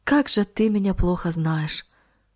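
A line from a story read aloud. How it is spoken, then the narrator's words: Sighing. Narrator (Russian): вздохнул он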